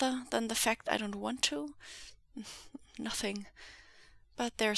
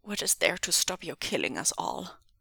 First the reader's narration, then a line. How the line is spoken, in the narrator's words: Wen Qing said, her voice trembling